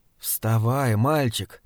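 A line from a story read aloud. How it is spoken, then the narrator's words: Hoarse whisper. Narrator (Russian): хрипло прошептала Джулой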